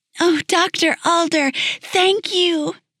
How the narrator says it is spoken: cried

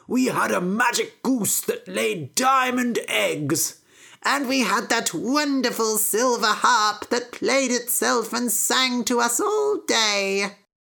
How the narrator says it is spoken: cried Jack's father

